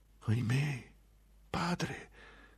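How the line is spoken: Sad murmur. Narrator (Italian): mormorò scuotendo tristemente la testa

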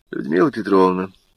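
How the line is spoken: Flat, colorless voice. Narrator (Russian): бесцветным голосом сказал Прохоров

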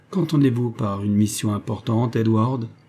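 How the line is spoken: Plain. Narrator (French): dit-elle

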